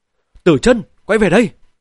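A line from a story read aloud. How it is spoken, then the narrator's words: Desperate howl. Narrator (Vietnamese): Âm Dương Tông chủ không kéo chọn được con cũng chẳng đứng dậy nổi, bèn gào lên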